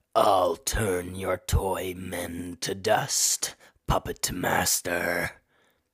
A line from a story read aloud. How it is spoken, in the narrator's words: boomed the necromancer